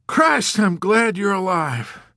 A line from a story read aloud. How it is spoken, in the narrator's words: he exclaimed, heaving an enormous sigh